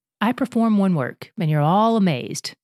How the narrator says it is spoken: Jesus answered

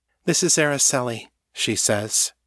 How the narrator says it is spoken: her tone sober

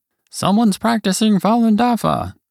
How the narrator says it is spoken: An inmate saw me and called out

